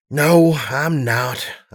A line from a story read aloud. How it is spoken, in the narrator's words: sighed